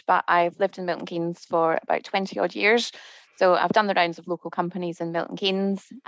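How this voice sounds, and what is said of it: Scottish accent. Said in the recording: “Don't be confused by my accent. I'm Scottish”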